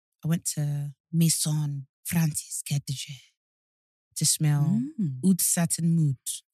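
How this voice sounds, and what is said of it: French accent on perfume names. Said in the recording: “Your French accent is really good.”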